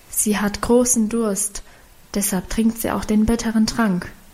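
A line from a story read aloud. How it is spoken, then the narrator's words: Whispered explanation. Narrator (German): erklärte flüsternd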